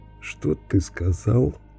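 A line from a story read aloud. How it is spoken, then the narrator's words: Strained, forced words. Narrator (Russian): выдавил темнолицый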